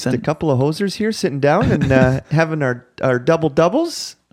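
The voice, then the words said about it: Put-on stereotypical Canadian accent. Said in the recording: “flawless Canadian accent ... That accent.”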